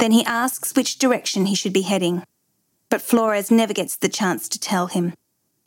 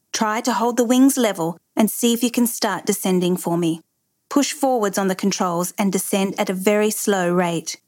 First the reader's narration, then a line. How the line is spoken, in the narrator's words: He radios Harrison and calmly tells him